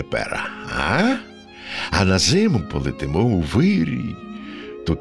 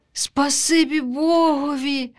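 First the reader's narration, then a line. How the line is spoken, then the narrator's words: Sighed. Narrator (Ukrainian): зітхнула вутятко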